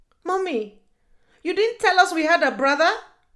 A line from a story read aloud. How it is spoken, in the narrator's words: Yagazi screamed at her